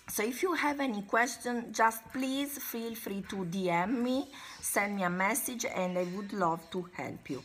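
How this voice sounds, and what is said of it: Sick, congested-sounding voice. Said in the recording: “Sorry for my voice, ... I have a little bit of a flu during these days”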